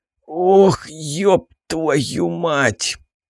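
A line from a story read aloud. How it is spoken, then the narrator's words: Groaning. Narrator (Russian): простонал я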